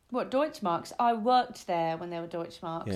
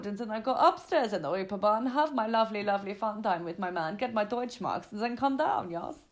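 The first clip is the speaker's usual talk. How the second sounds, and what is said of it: Bad put-on German accent. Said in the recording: “that terrible German accent I just did”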